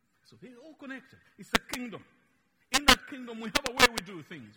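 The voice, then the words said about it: Luganda-influenced English accent. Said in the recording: “our accent. So much that even after traveling 8,000 kilometers away from home, you can't get me to speak some English words properly. ... I have my Luganda thing in it there. It's just mixed in there.”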